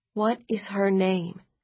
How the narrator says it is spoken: She asked softly

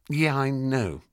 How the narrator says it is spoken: I sighed

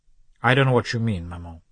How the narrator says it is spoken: the son replied coldly

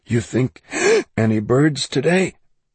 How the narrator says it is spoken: Kendall gasped

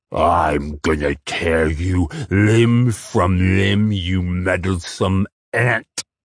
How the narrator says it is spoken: the moss hag snarled

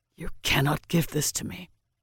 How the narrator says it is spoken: he rasped, his throat raw

